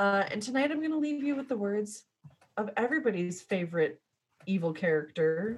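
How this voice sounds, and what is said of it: Usual voice. Nothing is said of it.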